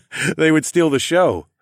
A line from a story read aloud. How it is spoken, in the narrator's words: I laughed